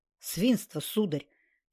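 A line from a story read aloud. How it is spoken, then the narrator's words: Angry. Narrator (Russian): сердито сказала Наташа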